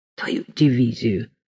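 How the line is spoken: Calm speech. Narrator (Russian): сказал Саша спокойно

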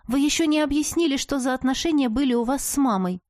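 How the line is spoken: Stubborn declaration. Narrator (Russian): Упрямо заявила я

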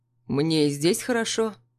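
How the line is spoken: Calm. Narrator (Russian): Спокойно отвечает он

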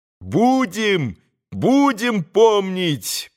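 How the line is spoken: Boys shouting. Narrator (Russian): прокричали опять мальчики

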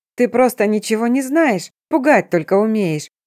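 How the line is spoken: Mocking. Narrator (Russian): произнесла насмешливо

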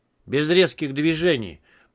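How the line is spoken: Cold warning. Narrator (Russian): предупредил я холодно

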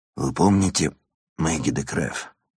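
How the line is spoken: Hoarse question. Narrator (Russian): спросил Ирван севшим голосом

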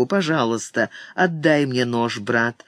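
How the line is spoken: Calm. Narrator (Russian): спокойно сказал он

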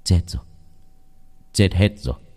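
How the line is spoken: Curt, chillingly cold reply. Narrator (Vietnamese): Ông Lâm đáp lại một câu cụt ngụt, vô tình, lạnh lùng đến đáng sợ

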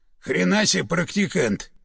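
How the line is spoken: Through gritted teeth. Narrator (Russian): процедил полковник

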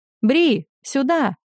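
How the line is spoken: Shout. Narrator (Russian): крикнула хозяйка таверны

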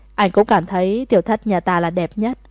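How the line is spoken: Laughing loudly. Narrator (Vietnamese): Thẩm Nhất cười lớn và nói

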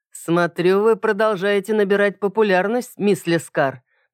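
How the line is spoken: Mocking remark. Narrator (Russian): насмешливо заметил

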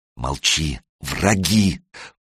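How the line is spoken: Hissed in ear. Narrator (Russian): прошипел ему в ухо Санек

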